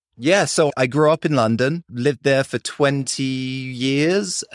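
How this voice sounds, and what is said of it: Strong British accent. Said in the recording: “you've got a very British accent”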